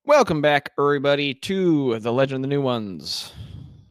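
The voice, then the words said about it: Sports announcer voice. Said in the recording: “I sounded like a sports announcer”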